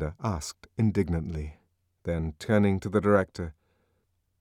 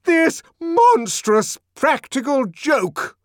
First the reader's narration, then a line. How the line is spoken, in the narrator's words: the director shouted